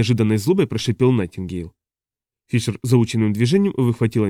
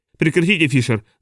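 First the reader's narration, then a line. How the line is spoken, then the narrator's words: Shout. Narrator (Russian): закричал Регис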